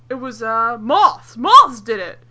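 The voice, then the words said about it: Alf character voice. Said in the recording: “You've got a really good Alf accent going ... That was like, Alf very accent ... it's the best accent you've ever had ... it was a fucking Alf accent”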